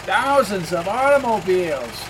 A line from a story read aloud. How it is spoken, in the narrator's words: exclaimed Sarah